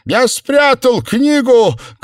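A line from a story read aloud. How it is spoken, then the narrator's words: Shout over shoulder. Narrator (Russian): крикнул Себастьян Сэму через плечо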